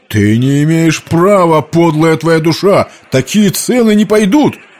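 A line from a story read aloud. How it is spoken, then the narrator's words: Man shouting. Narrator (Russian): крикнул какой-то мужчина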